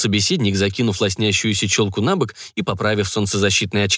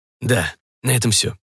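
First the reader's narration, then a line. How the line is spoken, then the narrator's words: Grumbling man. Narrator (Russian): буркнул мужчина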